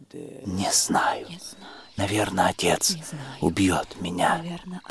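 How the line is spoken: Whisper. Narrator (Russian): прошептала она

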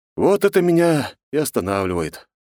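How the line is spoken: Deep sigh. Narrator (Russian): глубоко вздохнул

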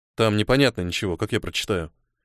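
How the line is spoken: Grumbled. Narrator (Russian): проворчал Ниэль

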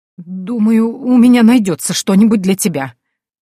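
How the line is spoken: Trembling voice. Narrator (Russian): дрожащим голосом произнесла женщина

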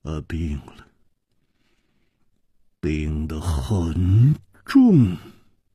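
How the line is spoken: Heavy sigh, gloomy. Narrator (Chinese): 沉重地叹息了一声，黯然说

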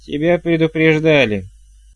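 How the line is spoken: Nanny barking. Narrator (Russian): рявкнула нянюшка

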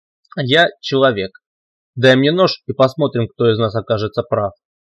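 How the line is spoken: Angry young girl. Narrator (Russian): злобно ответила юная девочка Катя

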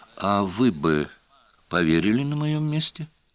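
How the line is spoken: Quiet question. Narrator (Russian): негромко спросил Карт

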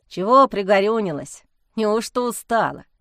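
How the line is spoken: Sly mocking question. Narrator (Russian): ехидно спросил домовой

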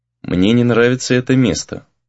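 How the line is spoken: Quiet, anxious. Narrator (Russian): тихо сказал Рэй, озвучив, наконец, свою тревогу

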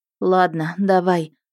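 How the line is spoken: Sighing. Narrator (Russian): вздохнула я

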